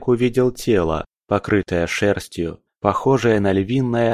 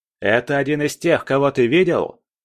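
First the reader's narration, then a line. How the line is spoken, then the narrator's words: Shouting mid-fight. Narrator (Russian): крикнул Тайвас, не прекращая отбивать удары зомби и прорываясь вперед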